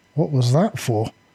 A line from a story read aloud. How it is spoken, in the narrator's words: stammered a little breathlessly